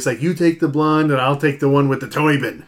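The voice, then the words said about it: Put-on Chicago accent. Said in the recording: “in a Chicago accent”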